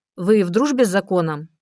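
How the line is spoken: Mocking question. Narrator (Russian): спросил насмешливо Голод

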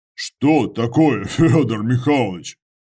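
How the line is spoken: Chuckling. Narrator (Russian): Отец Андрей хохотнул

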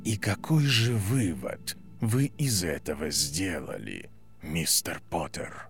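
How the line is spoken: Whispered. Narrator (Russian): прошептали

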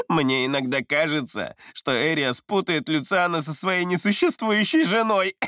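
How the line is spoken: Short chuckle. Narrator (Russian): хохотнул Абрам

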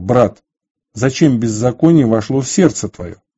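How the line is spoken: Angry. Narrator (Russian): с гневом сказал

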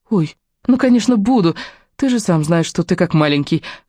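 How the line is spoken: Timid whisper. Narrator (Russian): робко прошептала Леони

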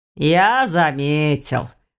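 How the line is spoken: Grumbling. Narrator (Russian): проворчал Каминский

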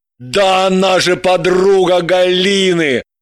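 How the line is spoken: Joyful. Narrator (Russian): Радостно вспомнил Граблин

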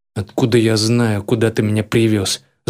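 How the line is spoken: Angry snort. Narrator (Russian): злобно фыркнул бандеровец

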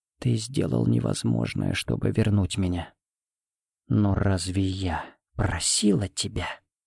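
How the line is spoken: Barely audible hoarse voice. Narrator (Russian): Едва слышно, хриплым голосом сказала

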